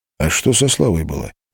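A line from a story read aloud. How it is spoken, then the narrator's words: Plain. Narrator (Russian): спросил Греб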